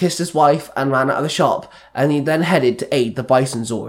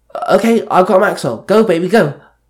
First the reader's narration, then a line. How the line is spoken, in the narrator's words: Kendall yelled